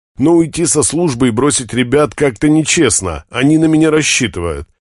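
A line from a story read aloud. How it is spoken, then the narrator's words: Forced out through gritted teeth. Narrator (Russian): сквозь зубы выдавливает он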